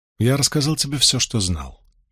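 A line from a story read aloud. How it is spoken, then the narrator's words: Heavy sigh. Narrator (Russian): тяжело вздохнул Асмодиан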